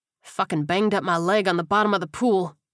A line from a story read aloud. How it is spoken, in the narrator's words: Kowalski groaned